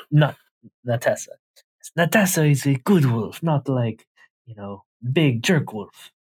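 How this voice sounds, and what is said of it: Character voice with Russian-sounding accent. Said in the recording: “I always end up sounding more Russian than I intend to. ... your impression”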